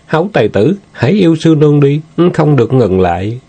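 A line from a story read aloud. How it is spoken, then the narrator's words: Moaning. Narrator (Vietnamese): Sư nương rên rỉ nói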